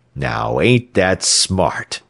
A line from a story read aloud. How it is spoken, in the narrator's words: sneered the thin Santa Claus